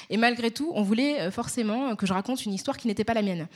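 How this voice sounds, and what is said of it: Pronounced Parisian French accent. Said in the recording (French): “accent parisien. Je pense que vous l'entendez ... j'ai un accent parisien assez prononcé”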